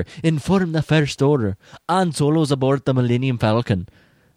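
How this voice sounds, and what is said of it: Terrible put-on accent. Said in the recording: “That's my terrible accent again.”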